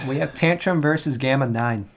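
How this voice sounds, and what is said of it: Odd put-on accent. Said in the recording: “I don't know what that accent was.”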